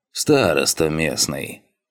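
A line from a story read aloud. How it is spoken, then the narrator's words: Grunting elder. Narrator (Russian): хмыкнул старший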